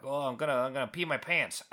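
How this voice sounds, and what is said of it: Attempted Boston accent. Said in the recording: “I have no idea if this sounds like a Bostonian accent or something. Is this even close? ... No, not at all.”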